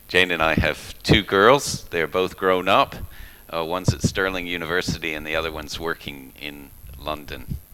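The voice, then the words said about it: American accent. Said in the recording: “You'll notice by my accent, I don't come from Scotland. I'm originally from America.”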